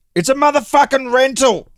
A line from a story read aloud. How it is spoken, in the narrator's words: Provenz yelled back